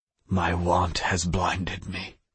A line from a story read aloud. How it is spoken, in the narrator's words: whispered in the air